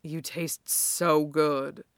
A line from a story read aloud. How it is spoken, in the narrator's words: Kuro says, again, little more than a husky murmur